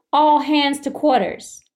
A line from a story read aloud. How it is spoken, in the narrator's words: Captain John Frederick Nichols called out to his crew